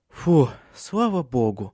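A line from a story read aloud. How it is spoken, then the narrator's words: Relieved sigh. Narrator (Russian): облегченно вздохнула Силия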